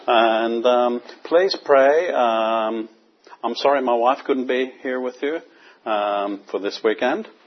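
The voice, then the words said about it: Northern Irish accent. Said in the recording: “I hope you can understand my accent. ... I'm from Belfast in Northern Ireland”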